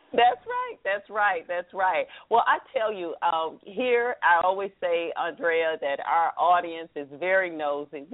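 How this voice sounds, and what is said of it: Southern American accent. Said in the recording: “Proud of my Southern accent.”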